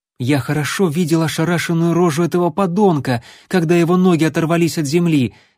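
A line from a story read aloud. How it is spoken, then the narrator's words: Ecstatic exclamation, youth. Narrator (Russian): восторженно воскликнул юнец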